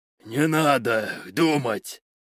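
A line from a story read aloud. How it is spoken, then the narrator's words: Growling. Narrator (Russian): прорычал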